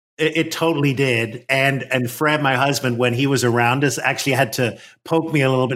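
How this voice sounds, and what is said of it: Irish accent. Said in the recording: “Since you had friends visiting from Ireland, did your accent come out more”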